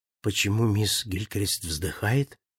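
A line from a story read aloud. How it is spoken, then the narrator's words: Whispering. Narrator (Russian): шепнул я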